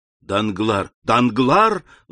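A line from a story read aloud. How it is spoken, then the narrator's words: Exclaimed. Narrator (Russian): воскликнул Альбер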